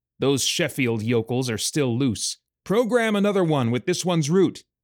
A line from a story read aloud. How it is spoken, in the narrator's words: yelled